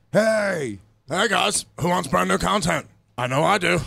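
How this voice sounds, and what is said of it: Impression of Luis J. Gomez. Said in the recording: “doing a Lewis voice”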